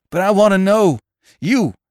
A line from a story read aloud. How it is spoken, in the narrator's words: shrieked his guide